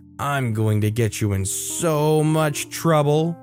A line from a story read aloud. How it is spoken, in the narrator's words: she sneered at me and said